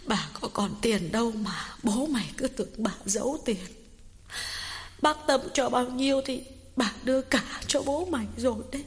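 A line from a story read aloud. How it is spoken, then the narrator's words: Sniffling tearful old woman. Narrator (Vietnamese): Bà Cảnh sụt sùi nói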